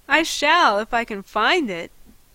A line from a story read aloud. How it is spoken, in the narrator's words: he laughed